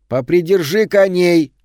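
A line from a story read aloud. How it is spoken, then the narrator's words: Shouting. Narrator (Russian): крикнула она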